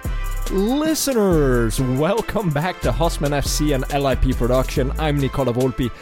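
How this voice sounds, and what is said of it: Voice with a cold. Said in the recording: “I've got a bit of a cold”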